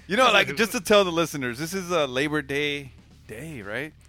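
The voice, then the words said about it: Slightly slurred, tipsy speech. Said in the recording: “I'm slurring because I've been drinking ... A little tipsy”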